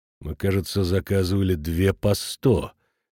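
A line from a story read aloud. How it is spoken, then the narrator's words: Threatening tone. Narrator (Russian): говорит он угрожающим тоном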